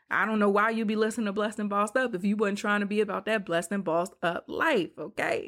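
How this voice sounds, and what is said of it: Rapper-style voice. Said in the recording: “In my rapper voice.”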